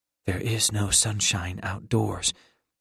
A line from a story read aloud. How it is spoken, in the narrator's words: whispered back